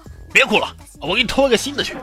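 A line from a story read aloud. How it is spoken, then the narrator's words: Annoyed and angry. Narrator (Chinese): 小偷烦了，直接怒道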